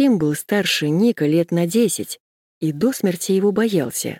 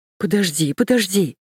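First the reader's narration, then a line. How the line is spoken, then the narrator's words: Pleading. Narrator (Russian): взмолился тот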